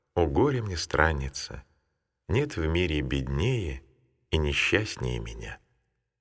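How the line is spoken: Tearful, heavy-sighing speech. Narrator (Russian): Тяжко вздохнув, Матфидия прослезилась и сказала

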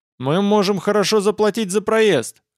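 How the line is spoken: Shouted. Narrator (Russian): крикнул я

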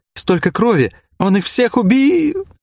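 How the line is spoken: Sobbing. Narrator (Russian): Снова начались рыдания

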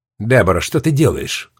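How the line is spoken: Irritated question. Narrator (Russian): раздраженно спросила Мэри

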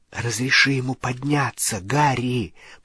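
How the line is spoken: Whispered. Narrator (Russian): прошептала Гермиона

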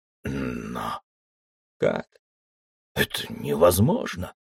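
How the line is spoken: Continued hoarse wheeze. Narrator (Russian): продолжал хрипеть Ксир

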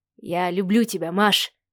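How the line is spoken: Mumbling. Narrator (Russian): пробормотал Сава

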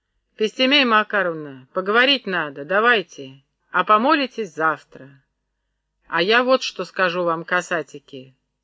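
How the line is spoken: Stern old woman. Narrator (Russian): проговорила Пестемея

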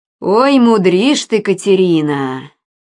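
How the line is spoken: Snort. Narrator (Russian): Банников хмыкнул

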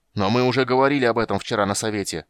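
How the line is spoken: Shouted. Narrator (Russian): выкрикнул Карамон

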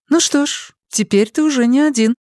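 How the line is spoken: Almost cheerful remark. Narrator (Russian): почти весело заметила Надин

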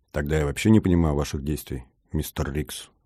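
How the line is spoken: Calm remark. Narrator (Russian): спокойно заметил я

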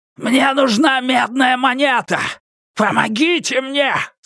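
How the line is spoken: Repeated shout. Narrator (Russian): снова крикнул он

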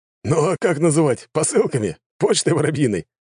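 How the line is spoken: Chuckling. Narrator (Russian): хохотнул он

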